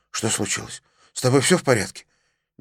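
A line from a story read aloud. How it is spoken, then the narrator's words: Frightened question. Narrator (Russian): Фарзат испуганно спросил отца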